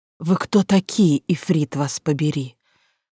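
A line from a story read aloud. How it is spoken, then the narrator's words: Hoarse, astonished anger. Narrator (Russian): хрипло спросила Ниджен с изумленной злостью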